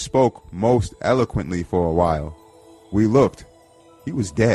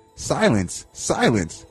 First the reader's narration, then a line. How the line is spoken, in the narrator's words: he exclaimed